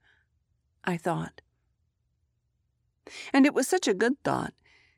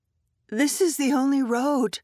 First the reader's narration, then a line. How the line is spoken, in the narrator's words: I said, and my voice shook, and my heart pounded